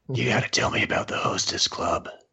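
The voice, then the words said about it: Creepy voice. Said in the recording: “you're doing your best creepy voice.”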